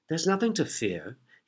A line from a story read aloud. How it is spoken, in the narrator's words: he said softly